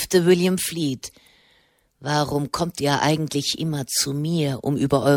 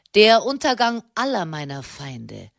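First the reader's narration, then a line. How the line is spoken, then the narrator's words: Cheerful reply. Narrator (German): versetzte Sernani fröhlich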